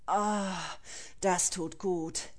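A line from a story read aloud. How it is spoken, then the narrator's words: Sigh. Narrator (German): seufzte er mit geschlossenen Augen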